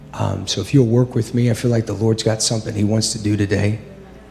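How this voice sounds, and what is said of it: Voice not sounding normal. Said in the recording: “forgive my voice. ... I don't normally sound like this”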